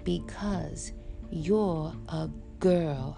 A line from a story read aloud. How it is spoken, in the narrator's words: Agaja said in his monster voice